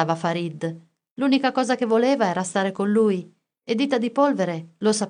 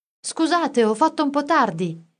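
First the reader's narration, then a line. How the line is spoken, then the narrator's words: Calling from afar. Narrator (Italian): gridò Orfeo da lontano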